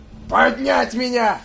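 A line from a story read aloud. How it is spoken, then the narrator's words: Yelling. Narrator (Russian): завопил капитан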